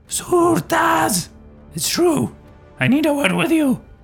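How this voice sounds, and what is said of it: Shouting. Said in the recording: “I keep shouting.”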